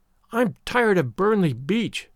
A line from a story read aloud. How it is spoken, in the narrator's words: Avery went on passionately